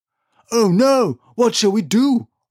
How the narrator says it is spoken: roared Nico

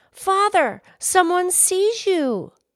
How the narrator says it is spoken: the daughter cried out

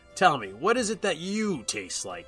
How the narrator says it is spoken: I growled at her

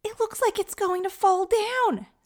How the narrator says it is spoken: screamed Leah, her alarmed tone

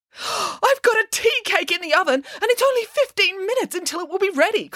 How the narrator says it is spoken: cried Nanny Piggins

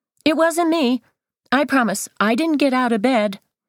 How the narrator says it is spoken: Devin shouts

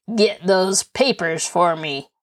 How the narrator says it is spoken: he commanded harshly

